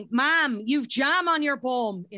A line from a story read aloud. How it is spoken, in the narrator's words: 2-year-old shouting